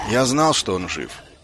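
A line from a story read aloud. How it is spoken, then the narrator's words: Gruff mumble. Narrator (Russian): буркнул Ваймс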